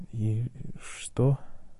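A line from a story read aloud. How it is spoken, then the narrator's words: Whispered. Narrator (Russian): прошептал Драко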